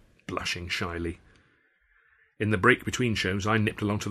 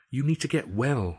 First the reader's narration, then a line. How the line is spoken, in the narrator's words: said